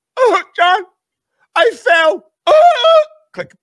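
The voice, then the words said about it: Imitates another person's voice. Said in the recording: “That's a really good fucking impersonation... You are doing a fantastic job.”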